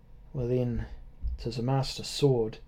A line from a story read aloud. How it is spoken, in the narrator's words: said she very softly